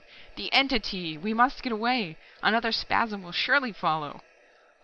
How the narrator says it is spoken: cried Pillbot

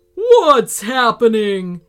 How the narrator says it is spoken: He roared

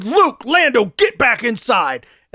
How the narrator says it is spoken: my uncle, their dad, shouted

